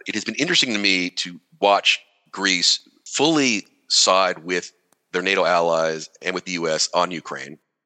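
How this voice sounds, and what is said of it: American accent. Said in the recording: “obviously, I'm American, as you can tell from the accent”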